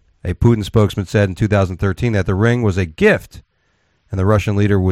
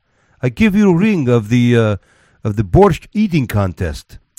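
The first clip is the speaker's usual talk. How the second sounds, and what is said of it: Put-on Russian accent. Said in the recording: “This isn't the worst Russian accent ever. I'm pretty surprised.”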